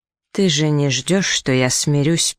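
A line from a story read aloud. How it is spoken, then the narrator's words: Muttered. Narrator (Russian): пробормотал де Гавангас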